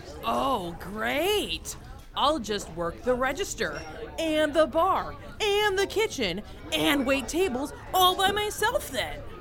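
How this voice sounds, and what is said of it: Sarcastic tone. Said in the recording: “I was being sarcastic!”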